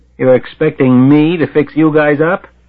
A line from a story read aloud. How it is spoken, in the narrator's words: He yells over the crash of the toilet flushing